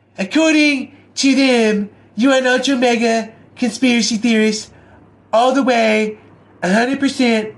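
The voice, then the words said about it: Imitates another person's voice. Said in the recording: “I do a horrible Trump impression”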